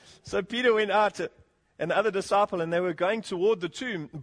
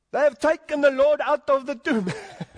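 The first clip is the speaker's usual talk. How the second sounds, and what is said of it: Put-on Jewish woman's accent. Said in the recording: “In my best Jewish voice. ... Is that sounding a little bit Greek or what?”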